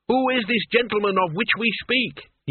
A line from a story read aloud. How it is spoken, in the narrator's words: he yelled